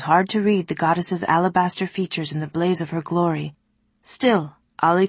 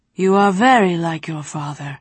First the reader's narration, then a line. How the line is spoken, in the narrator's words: the great mother said at last, her voice shuddering through Ali